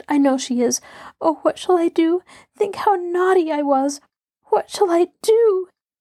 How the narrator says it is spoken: She sobbed so convulsively

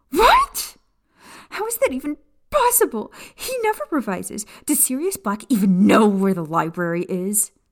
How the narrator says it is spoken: she screeched

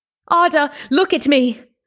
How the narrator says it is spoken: My lungs were exhausted, yet it hurt so much that still, I tried to scream

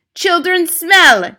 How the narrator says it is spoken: she screamed

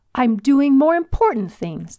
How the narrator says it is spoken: the volunteer yelled

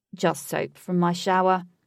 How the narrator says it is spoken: chuckled

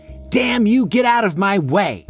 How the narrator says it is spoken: Clara yells

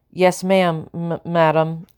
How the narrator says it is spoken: stuttered

